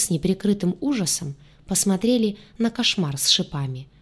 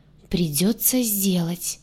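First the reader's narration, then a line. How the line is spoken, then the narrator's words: Groaning crocodile. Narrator (Russian): простонал крокодил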